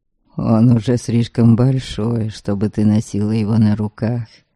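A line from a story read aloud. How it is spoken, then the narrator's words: Quiet. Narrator (Russian): негромко сказал он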